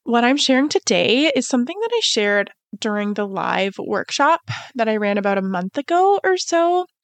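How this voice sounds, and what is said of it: Slightly nasal, congested voice. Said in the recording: “I am recovering from a cold, so I sound a little nasally”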